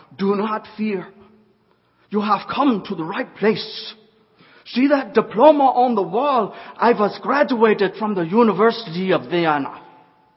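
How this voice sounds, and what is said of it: Heavy German accent. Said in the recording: “in a heavy German accent”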